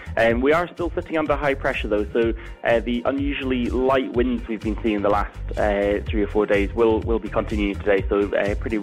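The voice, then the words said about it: Scottish accent. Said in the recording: “your accent is wonderful ... It gets a bit more Scottish when I start presenting”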